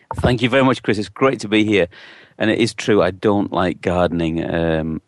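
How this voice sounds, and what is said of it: Northern English accent. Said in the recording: “he's got a northerner, he's got a northern accent”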